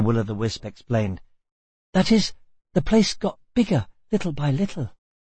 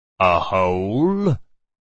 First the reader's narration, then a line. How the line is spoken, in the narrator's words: the Rock Chewer grunted